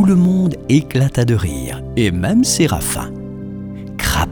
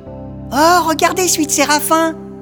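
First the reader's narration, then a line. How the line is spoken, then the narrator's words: Exclaiming. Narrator (French): s'écria Blaise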